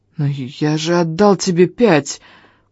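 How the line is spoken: Hoarse hateful. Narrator (Russian): Просипел я, с ненавистью

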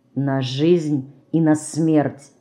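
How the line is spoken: Sudden quiet, clear speech. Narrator (Russian): вдруг тихо и внятно сказал он

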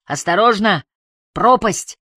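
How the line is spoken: Shouting. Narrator (Russian): Харри уже пару раз кричал

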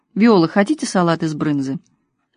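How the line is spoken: Perfectly calm. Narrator (Russian): Хозяйка абсолютно спокойно сказала

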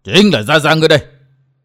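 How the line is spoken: Old man roaring. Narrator (Vietnamese): Lão gầm lên

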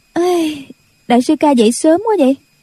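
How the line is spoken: Yawning, then laughing. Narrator (Vietnamese): cô dương dài ngáp dài một cái rồi cười nói

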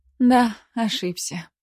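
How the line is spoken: Sighing. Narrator (Russian): вздохнула я

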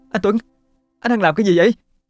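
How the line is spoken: Uncontrolled cry. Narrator (Vietnamese): Thấm không kìm được mà la lên

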